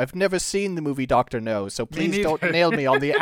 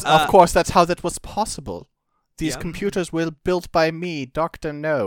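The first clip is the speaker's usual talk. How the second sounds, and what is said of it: Put-on villain accent. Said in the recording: “accent here. I think he's Chinese, so this accent doesn't make a lot of sense”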